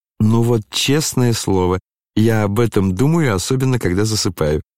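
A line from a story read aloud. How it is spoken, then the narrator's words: Laughing. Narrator (Russian): засмеялся князь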